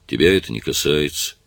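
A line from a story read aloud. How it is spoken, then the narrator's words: Grumbling. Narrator (Russian): Кен проворчал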